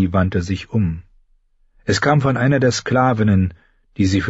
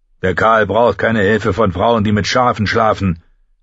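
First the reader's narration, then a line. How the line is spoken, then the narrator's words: Barked. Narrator (German): bellte Koto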